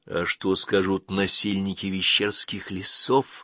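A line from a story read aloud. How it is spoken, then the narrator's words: Whisper. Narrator (Russian): зашептала она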